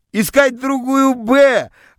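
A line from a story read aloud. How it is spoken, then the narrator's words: Joyful group shouting. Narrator (Russian): радостно кричали мне из класса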